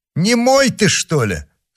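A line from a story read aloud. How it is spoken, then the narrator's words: Shouting duke. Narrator (Russian): закричал герцог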